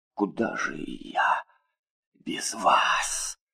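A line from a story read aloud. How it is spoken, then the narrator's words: Man muttering. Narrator (Russian): пробормотал он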